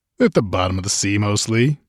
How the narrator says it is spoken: he replied cheerfully

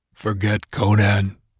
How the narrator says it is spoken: he said thickly

